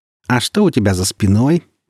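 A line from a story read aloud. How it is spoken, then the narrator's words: Mocking question. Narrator (Russian): насмешливо спросила Женя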